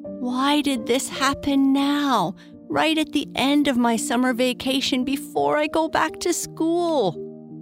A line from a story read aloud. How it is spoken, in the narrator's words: said with a moan